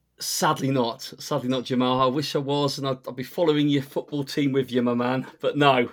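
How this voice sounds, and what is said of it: Northern English accent. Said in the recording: “fantastic accents ... I'm guessing you're not from South Carolina by your accent ... around the UK ... I'm originally from up north”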